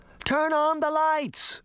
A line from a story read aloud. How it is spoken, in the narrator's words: Daphne shouted